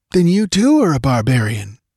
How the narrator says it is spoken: he exclaimed involuntarily

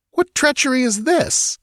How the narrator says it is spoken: cried Murillo

